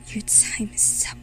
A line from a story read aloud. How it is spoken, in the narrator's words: she hissed